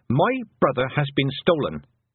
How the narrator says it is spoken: said Tiffany sharply

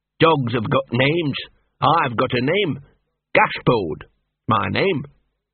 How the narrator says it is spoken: said Gaspode, a shade sullenly

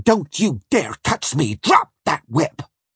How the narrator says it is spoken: Annette just snapped

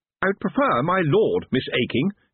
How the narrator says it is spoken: he said sharply

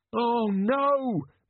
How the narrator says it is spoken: moaned Jenkins

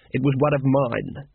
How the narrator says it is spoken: he said coldly

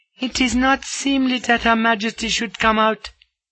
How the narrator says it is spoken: cries the chief maid

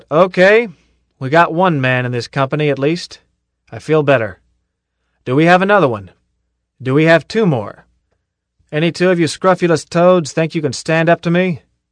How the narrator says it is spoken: Zim stepped back and called out

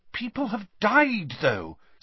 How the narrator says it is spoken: said Hermione in a worried voice

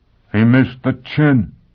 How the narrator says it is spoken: he exclaimed

